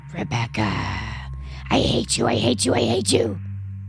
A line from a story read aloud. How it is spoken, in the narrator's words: the voice, a feminine but deep and raspy voice, saying